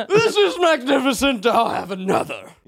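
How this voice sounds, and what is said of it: Drunk king voice, mispronounced words. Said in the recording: “my way to do a Miles impression is just pretend you're a king who's drunk on mead ... I just sort of mispronounce every third to fifth word”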